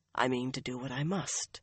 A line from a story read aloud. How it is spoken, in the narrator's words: Swan said firmly, but just as softly